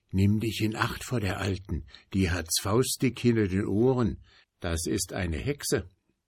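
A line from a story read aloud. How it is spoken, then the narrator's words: Quiet promise. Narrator (German): versprach er leise zu ihm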